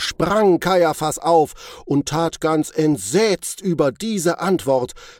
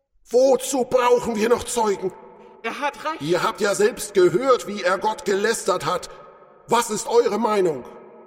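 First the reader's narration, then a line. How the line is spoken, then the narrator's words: Judges shouting all at once. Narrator (German): Da sprangen alle Richter von den Sitzen und schrien durcheinander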